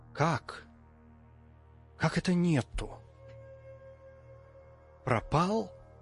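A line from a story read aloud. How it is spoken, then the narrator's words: Hoarse bass, hysterical female contralto. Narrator (Russian): Одновременно восклицали сиплый, как ослабнувшая струна басок и сверкающая истерикой женское контральто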